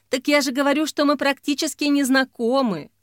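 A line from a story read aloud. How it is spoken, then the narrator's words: Sigh. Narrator (Russian): вздохнула Ксения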